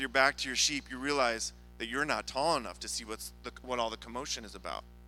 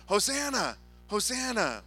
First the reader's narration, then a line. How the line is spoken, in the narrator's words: the people are shouting